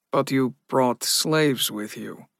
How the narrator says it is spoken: Donick said, his voice flat

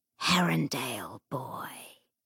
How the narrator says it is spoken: the demon said, in a voice like the last hiss of dying fire in a grate

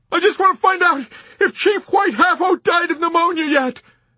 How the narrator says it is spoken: the man shouted back

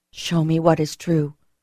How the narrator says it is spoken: I murmured

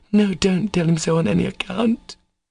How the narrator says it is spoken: cried Katya in alarm

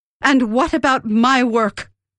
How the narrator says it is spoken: She asked in an unsteady voice

